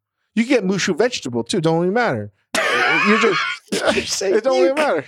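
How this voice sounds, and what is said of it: Unidentifiable put-on accent. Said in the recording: “I can't even tell what accent that was.”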